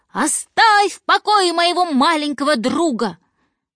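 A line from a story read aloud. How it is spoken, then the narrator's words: Shouting. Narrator (Russian): Человечек побольше как закричит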